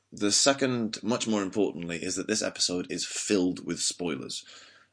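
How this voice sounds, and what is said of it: Slightly weird voice, has a cold. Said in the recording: “I have a cold, so my voice is a bit weird”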